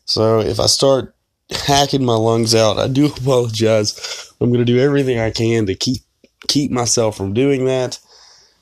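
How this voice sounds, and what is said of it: Voice sounds sick with a cold. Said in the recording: “as you can probably hear in my voice, I've been fighting this cold for like 2 weeks now”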